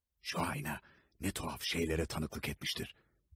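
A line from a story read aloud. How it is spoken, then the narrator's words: Whispering. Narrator (Turkish): diye fısıldadı Poole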